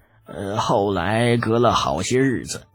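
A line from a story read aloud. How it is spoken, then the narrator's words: Sighing. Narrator (Chinese): 程文乐叹了一口气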